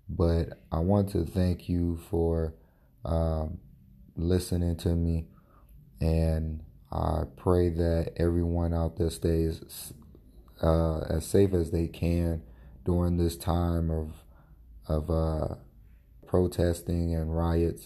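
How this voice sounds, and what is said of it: Low, fading, strained voice. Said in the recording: “my voice is getting low or you're having a hard time hearing me ... I'm losing my voice, allergies”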